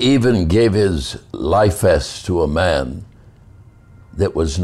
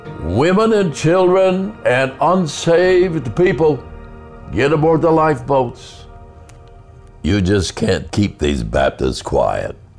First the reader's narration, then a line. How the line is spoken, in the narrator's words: that Baptist minister ran around the deck shouting